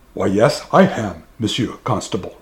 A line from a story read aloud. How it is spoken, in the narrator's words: replied Mum